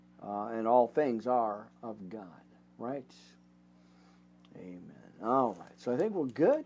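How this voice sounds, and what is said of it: Emotional, choked-up voice. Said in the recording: “getting all choked up here”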